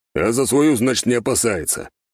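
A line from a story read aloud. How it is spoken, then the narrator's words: Sudden grumble. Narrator (Russian): неожиданно проворчал барон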